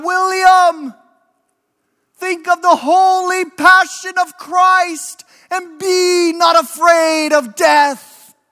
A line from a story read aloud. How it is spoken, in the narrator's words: his brother shouted out